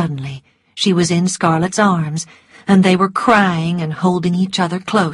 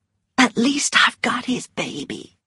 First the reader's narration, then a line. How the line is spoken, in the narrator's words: whispered Melanie